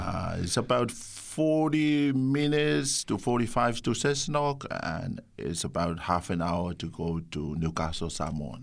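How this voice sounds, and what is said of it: Slight foreign accent. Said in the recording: “I uh, pick up a little bit of an accent”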